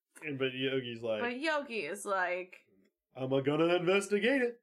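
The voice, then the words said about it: Poor cartoon bear character voice. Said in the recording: “my terrible Yogi impression”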